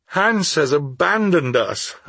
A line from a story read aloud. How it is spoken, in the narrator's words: I cried